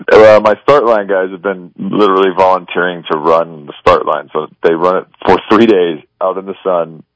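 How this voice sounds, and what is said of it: Raspy, hoarse voice. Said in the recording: “you can hear my voice is still raspy. It's because I'm still recovering.”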